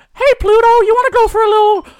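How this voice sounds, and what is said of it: Good Mickey Mouse cartoon voice. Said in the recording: “that was a really good Mickey Mouse impression”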